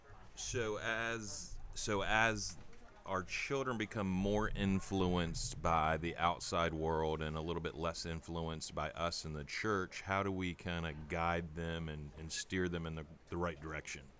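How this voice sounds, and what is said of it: Smooth velvety radio voice. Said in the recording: “what a radio voice ... Dude, you should be doing radio ... the velvety voice”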